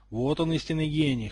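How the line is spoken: Snort. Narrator (Russian): хмыкнул Драко

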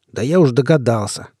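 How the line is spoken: Venomous reply. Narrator (Russian): отозвался я ядовитым голосом

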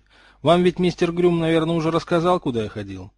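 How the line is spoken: Grunting. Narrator (Russian): Старый Аврора хмыкнул

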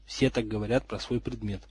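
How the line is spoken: Quiet comment. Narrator (Russian): тихо прокомментировал Гарольд

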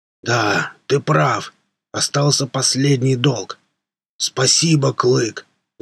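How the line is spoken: Strong booming voice. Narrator (Russian): Загудел он вновь сильным голосом

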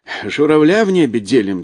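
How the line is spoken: Cheerful laughter. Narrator (Russian): засмеялся Капустин, окончательно повеселев

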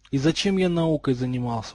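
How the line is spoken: Dejected sigh. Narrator (Russian): удрученно вздохнул Рональд Уизли

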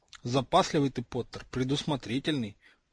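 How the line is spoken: Drowsy mumble. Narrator (Russian): пробормотал разомлевший Драко

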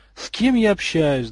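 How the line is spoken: Sigh. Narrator (Russian): вздохнул Малфой

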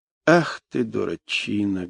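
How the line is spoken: Sad. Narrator (Russian): грустно сказал

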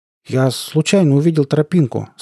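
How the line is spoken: Uncertain, embarrassed. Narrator (Russian): сказал я неуверенно, понимая, как нелепо это звучит

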